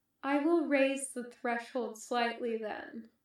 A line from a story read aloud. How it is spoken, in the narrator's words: Kenobi said calmly